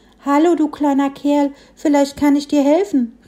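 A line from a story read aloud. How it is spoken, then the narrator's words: Little tree calling out. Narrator (German): rief das Bäumchen dem Frischling zu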